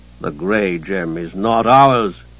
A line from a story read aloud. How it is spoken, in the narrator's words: the protector said sternly